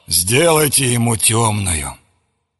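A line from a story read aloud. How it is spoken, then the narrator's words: Grumbled. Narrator (Russian): Кто-то проворчал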